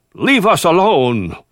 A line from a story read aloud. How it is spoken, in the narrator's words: he cried out